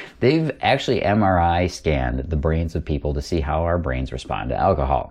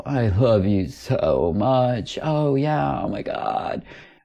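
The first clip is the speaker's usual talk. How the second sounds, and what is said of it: Imitates drunk girls' voices. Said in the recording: “my best impression of a group of drunk girls”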